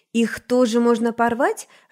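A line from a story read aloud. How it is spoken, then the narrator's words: Joyful question. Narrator (Russian): радостно спросила Навь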